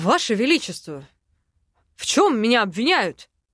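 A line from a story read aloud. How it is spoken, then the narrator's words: Exclaiming. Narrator (Russian): воскликнул Айден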